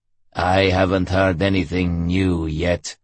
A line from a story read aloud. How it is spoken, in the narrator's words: Homer growled contemptuously